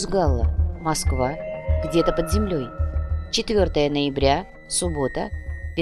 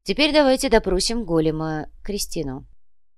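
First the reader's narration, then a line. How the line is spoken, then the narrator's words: Ordinary tone, suggesting. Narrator (Russian): Сантьяго обычным тоном предложил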